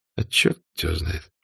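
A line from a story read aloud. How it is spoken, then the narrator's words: Gruff mutter. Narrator (Russian): буркнул Штирлиц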